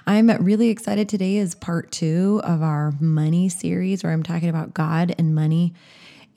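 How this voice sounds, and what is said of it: Slightly scratchy, recovering voice. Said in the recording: “I think my voice does still sound a little scratchy. I lost my voice for a couple of days ... I think it still might sound a little off”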